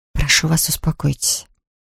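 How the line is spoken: Whispered. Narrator (Russian): прошептала она

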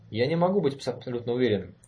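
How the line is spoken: Answered irritably. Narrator (Russian): раздраженно ответил Конрад

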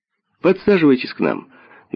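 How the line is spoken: Cheerful invitation. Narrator (Russian): весело пригласил Эдвард

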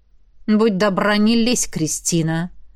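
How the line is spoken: Through clenched teeth. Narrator (Russian): Процедил Джет

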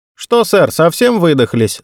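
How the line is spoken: Overly loud question. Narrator (Russian): спросил Джерсон излишне громко

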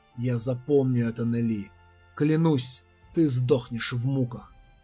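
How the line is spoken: Sepulchral hiss. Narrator (Russian): За могильным голосом он прошипел

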